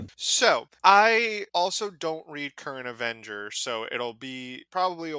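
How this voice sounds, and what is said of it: Usual voice. Nothing is said of it.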